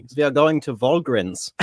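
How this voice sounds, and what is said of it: Put-on German accent. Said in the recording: “You do a German accent. Can you do a little bit for us?”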